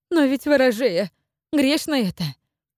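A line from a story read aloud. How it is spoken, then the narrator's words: Frightened exclamation. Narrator (Russian): испуганно воскликнула Наталья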